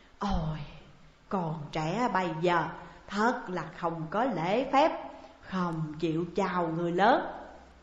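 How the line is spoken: Old man's sighing voice. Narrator (Vietnamese): Lão Quân lắc lắc đầu thở dài nói

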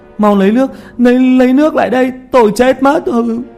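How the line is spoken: Screaming in pain. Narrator (Vietnamese): Tiểu Mã kêu gào dưới thân của Thi Vương, cố bỏ ra ngoài, hai tay cào mặt mà hét

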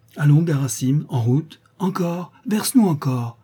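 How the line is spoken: Exclaiming. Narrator (French): s'écria Zénaïde

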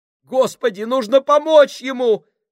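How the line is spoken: Exclamation. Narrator (Russian): воскликнул Поллард

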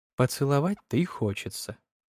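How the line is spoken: Whisper. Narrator (Russian): шепнула она

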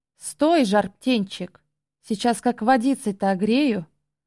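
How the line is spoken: Menacing laughter. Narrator (Russian): Злобно и пугающе хохоча

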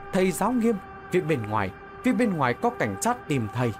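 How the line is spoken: Young woman shouting urgently. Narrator (Vietnamese): một sinh viên nữ ... chạy trở lại hét lớn

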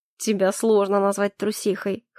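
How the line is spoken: Amused snort. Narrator (Russian): хмыкнул Калипсо

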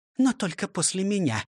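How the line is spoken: Whispered addition. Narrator (Russian): добавила шепотом

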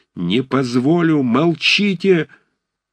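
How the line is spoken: Piercing anguished shout. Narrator (Russian): закричал он пронзительным страдальческим голосом

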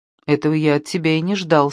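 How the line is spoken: Plain. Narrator (Russian): сказал Яни

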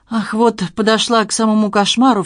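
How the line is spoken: Sobbing. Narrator (Russian): всхлипнула Нина

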